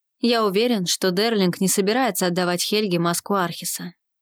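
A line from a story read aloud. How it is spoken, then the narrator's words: Plain. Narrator (Russian): ответил он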